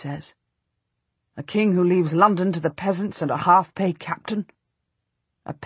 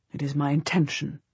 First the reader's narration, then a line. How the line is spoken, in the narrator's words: he says tightly